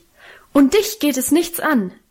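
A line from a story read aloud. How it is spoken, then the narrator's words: Frantic shouting. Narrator (German): rief außer sich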